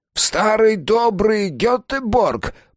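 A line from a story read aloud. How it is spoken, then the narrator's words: Regional accent. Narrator (Russian): проговорил Густав с гетеборгским акцентом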